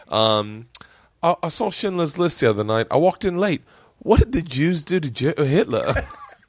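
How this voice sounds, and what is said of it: Put-on British accent. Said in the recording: “I'm going to do it with your accent. ... he's just a British comic”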